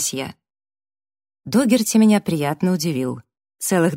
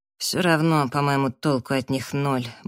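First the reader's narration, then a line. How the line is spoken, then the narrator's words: Mild grumble. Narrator (Russian): буркнул Раф, но беззлобно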